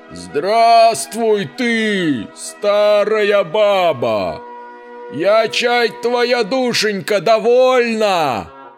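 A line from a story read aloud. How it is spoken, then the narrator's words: Loud shout. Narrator (Russian): Закричал он голосом громким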